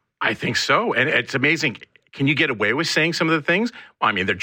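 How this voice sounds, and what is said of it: Usual voice. Nothing is said of it.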